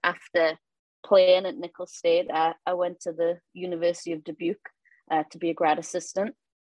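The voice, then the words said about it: Newcastle English accent, slower speech. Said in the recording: “all my friends back home think I've got a little bit of a twang... my accent and voice has become a lot slower... someone from Newcastle, England”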